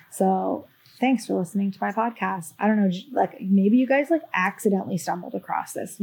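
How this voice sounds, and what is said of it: Raspy voice. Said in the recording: “my raspy, annoying voice”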